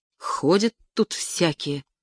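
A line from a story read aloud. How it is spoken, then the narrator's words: Muttered. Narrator (Russian): пробормотала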